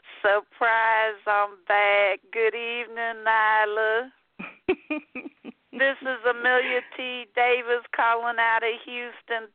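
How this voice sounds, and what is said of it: Sweet Southern Texas drawl. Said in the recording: “Texas drawl southern super tea sweet voice”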